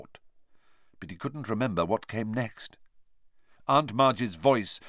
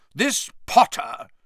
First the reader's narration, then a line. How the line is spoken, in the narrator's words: said Aunt Marge loudly